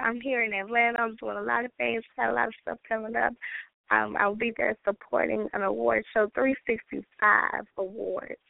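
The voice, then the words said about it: Hoarse, worn-out voice. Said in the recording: “my voice is a little gone. I've been sick since my birthday.”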